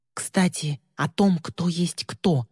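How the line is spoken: Whisper, then full voice. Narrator (Russian): шепнула на ухо, а затем уже в полный голос произнесла

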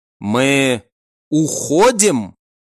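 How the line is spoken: Slow. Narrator (Russian): медленно произнес Шин

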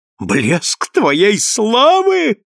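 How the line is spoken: Furious screaming. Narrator (Russian): снова вопит в конец взбешенная Канделора

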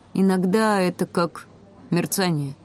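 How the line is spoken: Uncertain. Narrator (Russian): сказал он неуверенно

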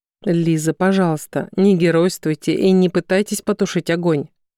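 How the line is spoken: Calm request. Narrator (Russian): Все так же спокойно попросил Краснов

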